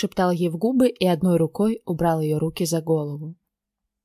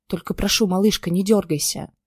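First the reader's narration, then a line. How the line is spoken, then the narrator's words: Hiss. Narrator (Russian): прошипел я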